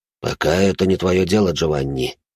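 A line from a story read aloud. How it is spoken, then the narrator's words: Sighing. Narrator (Russian): вздохнул Кузима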